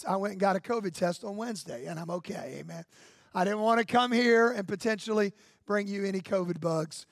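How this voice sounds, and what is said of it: Strained, slightly hoarse voice. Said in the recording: “I've had a little bronchitis this week. That's why my voice is a little strained.”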